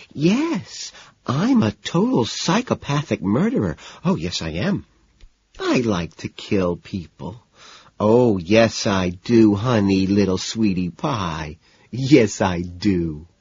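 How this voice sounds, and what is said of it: High-pitched cooing baby voice. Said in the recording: “talking in a high-pitched baby voice ... cooing”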